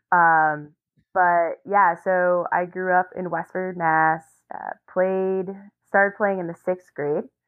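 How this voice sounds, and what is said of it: Slight Massachusetts accent. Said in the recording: “about 45 minutes outside of Boston. You can hear my accent a little bit. ... Yeah, you can. ... Whenever I talk of home, it comes out.”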